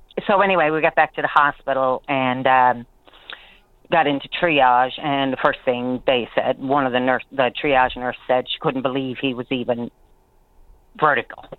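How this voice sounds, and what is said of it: Shaky, nervous voice. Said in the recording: “My voice is a little shaky. I'm nervous.”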